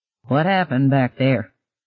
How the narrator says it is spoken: Ben asked

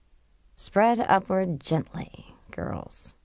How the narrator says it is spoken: Tricia murmured

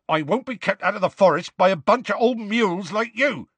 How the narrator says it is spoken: said Hagrid loudly

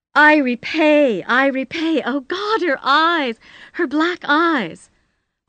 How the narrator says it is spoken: She was shrieking

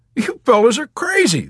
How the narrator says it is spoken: the Texan cried

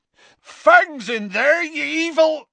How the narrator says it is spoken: Hagrid bellowed

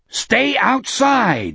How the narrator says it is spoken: he roared into it

